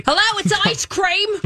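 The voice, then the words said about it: Good put-on Australian accent. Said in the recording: “That's a good Australian accent.”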